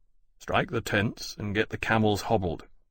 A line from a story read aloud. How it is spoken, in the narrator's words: Lawrence said grimly